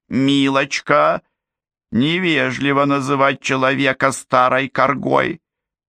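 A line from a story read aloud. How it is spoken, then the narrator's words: Grumbling. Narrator (Russian): проворчала Момби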